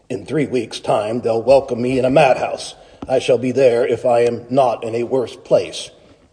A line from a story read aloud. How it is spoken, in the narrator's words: he muttered to himself